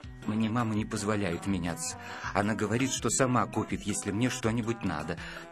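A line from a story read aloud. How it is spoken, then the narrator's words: Plain. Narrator (Russian): сказал Виталик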